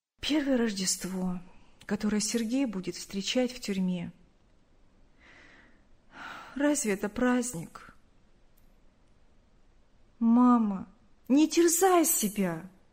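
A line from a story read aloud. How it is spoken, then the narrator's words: Sad. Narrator (Russian): грустно сказала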